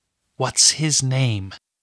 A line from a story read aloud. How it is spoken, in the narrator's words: whispered into the suspense-filled air